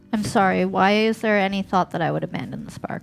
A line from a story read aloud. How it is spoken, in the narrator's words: Fuse sighs